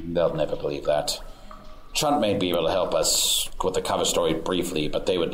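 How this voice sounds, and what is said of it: Usual voice. Nothing is said of it.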